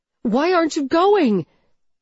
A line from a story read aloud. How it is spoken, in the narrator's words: I scream